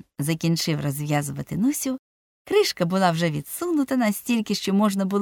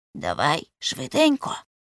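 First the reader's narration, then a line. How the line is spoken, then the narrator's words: Whispered. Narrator (Ukrainian): прошепотів Цибулька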